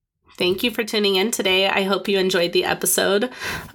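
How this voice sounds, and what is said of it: Sick-sounding voice. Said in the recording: “sorry for my voice. ... I'm still sick”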